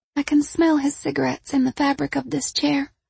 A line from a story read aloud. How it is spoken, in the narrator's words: Tawny whispered